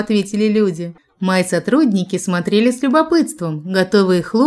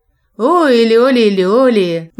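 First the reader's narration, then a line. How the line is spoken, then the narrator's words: Rich folk singing voice. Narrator (Russian): запела густым народным голосом певица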